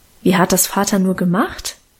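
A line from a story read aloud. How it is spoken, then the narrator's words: Plain. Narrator (German): fragte ich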